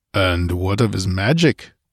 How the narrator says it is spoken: rumbled the Cimmerian

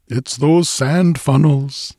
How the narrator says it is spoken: exclaimed the Swede

